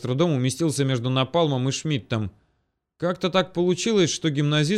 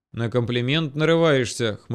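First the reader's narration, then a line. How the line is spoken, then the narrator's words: Smirking. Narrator (Russian): хмыкнул пиромант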